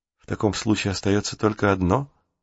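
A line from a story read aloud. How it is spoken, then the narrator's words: Whisper. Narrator (Russian): шепнул он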